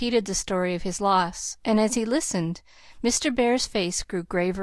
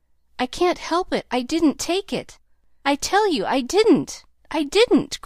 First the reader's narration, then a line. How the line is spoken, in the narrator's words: cried Nat, in a desperate sort of way